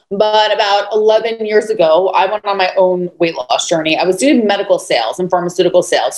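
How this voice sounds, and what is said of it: New York accent. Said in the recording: “I'm originally from New York, so you might hear that accent come out”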